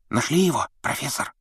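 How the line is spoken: Whisper. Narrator (Russian): прошептал Перси

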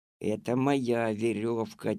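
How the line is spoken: Quiet voice. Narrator (Russian): тихо сказал Алёшка

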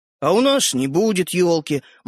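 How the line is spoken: Gloomy announcement. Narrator (Russian): мрачно объявил Родька

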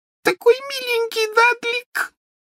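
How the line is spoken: Sobbing. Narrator (Russian): всхлипывала она

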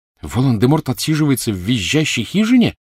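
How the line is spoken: Indignant question. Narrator (Russian): возмущенно спросила Гермиона

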